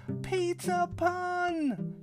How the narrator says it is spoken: exclaimed

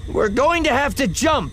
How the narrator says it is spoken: Ziri shouted over the rattle of the vessel

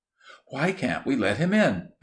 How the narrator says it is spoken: asked Lizzie eagerly

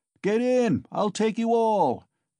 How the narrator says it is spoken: Mikolka shouted again

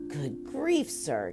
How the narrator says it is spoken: exclaimed the officer

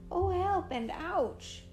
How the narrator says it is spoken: cried the king

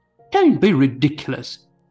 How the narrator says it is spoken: Jacob exclaimed

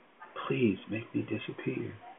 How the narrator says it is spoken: whispered into the palm of her hand

